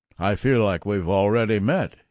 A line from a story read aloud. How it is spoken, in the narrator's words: he boomed